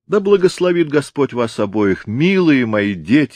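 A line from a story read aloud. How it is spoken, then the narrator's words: Exclaimed. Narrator (Russian): воскликнул Сэмпсон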